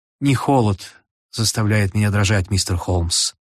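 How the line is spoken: Quiet woman. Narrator (Russian): тихо сказала женщина

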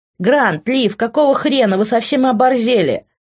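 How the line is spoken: Shouting. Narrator (Russian): закричал Тео

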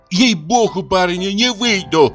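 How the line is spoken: Sudden flustered shout. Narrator (Russian): крикнула вдруг Пелагея, вся вспыхнув

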